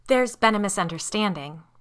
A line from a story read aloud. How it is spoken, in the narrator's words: Liz said firmly